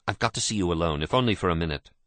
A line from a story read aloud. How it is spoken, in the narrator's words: Michael said quickly